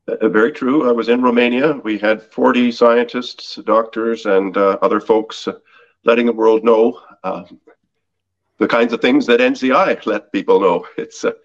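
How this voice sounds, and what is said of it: Slightly raspy, hoarse voice. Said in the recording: “I hope my voice is hearable. I'm a little raspy in the throat at the moment.”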